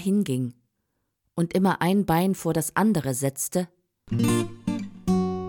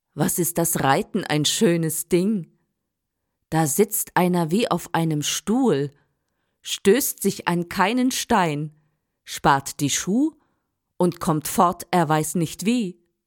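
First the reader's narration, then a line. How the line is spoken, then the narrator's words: Very loud speech. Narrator (German): sprach Hans ganz laut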